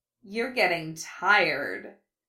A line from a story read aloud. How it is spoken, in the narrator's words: Carmine purred, her eyes gleaming in triumph